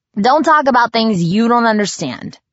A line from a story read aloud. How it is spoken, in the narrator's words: snapped